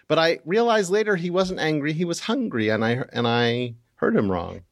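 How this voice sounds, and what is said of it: Usual voice. Nothing is said of it.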